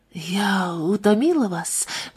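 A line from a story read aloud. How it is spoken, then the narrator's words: Whispered. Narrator (Russian): прошептала Ленор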